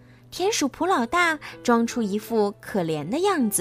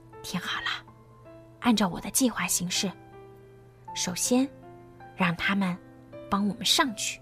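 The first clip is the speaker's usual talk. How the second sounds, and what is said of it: Quiet, hushed speech. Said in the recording (Chinese): “普老大小声的对两个同伙说”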